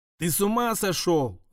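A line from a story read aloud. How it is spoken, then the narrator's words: Shouting. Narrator (Russian): закричала Катя, крутясь в воде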